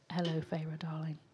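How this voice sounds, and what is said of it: Put-on British accent, partly Australian-sounding. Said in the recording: “a British accent? ... That sounded like a mixture between Australian”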